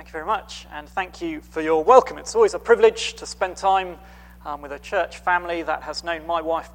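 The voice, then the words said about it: Speaker's own non-American accent. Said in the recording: “I hope you managed to understand me, despite my accent.”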